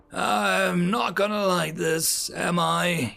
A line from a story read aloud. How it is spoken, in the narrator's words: He growled in annoyance